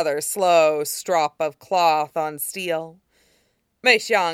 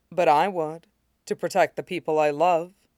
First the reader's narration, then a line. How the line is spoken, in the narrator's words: Mei Xiang said calmly